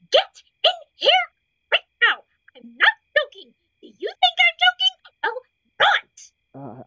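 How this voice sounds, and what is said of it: Angry screaming. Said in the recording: “I'm gonna keep screaming until you're in here! That's how mad I am!”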